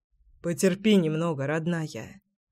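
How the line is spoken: Soft reply. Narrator (Russian): ответил я тихо

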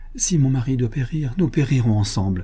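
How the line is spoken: Exclaimed. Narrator (French): s'écria-t-elle

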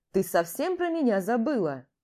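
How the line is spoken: Cheerful voice. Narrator (Russian): голос Вадима звучит весело

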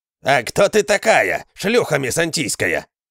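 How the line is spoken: Villager growling. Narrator (Russian): зарычал тот селянин, который заговорил вторым

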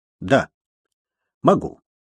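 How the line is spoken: Curt, clipped. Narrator (Russian): отрывисто бросил инспектор Грэхэм

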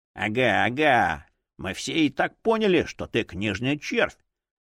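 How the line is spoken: Grumble. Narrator (Russian): проворчал кукольник

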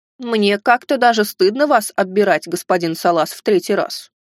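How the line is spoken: Amused snort. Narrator (Russian): хмыкнул

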